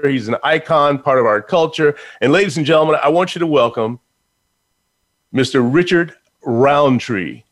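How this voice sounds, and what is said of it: Polished radio announcer voice. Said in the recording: “I'm listening to your radio voice.”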